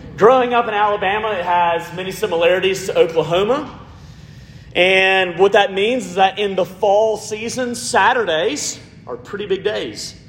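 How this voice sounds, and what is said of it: Southern US accent. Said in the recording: “Growing up in Alabama, if you can't tell by this amazing accent”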